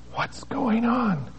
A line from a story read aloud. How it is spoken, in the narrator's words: She whispered in turn to Karen Zimmerman